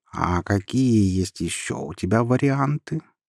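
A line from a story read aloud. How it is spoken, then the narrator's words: Purred. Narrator (Russian): промурлыкал Мяусон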